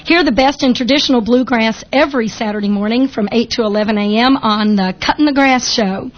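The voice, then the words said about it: Kentucky accent. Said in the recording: “with my Kentucky accent.”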